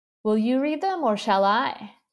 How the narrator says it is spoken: She asked kindly

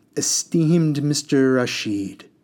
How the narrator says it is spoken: said

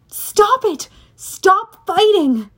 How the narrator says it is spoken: I yelled

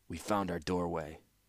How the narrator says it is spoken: said Mishra calmly

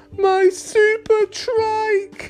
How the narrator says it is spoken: Alex wailed

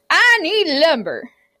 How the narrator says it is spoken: Eric bellowed

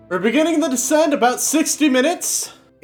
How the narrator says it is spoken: you hear someone yell

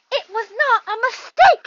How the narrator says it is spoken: said Harry angrily

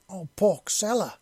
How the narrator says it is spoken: she exclaimed

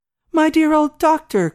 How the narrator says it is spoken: cried

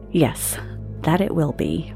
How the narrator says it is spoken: muttered Catherine

